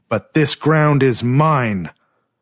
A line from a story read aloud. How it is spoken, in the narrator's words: he shouted